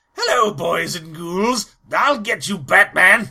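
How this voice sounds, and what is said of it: Crypt Keeper voice slipping into Joker. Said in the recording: “I was trying to do a Crypt Keeper voice, and every time I tried to do it, I kept slipping into Joker”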